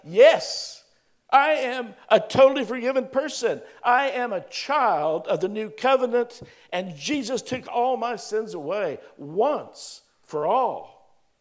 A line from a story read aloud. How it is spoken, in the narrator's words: shout